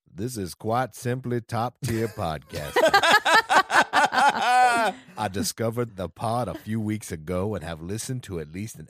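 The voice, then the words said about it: Morgan Freeman impression. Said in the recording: “should try and do this in his best Morgan Freeman impression ... I got to channel some Shawshank into this. Okay, Andy Dufresne.”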